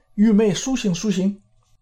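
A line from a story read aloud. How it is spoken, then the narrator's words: Calling out. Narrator (Chinese): 叫道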